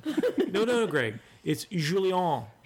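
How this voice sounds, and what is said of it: Exaggerated heavy French accent. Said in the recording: “pronouncing it as if we were native French speakers speaking English with a heavy French accent”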